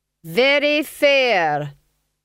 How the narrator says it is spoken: he said loudly

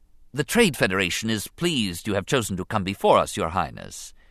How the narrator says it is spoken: he began smoothly

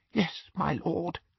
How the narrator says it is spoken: whispered Bellatrix, and her eyes swam with tears of gratitude

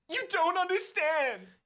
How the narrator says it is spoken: You wail

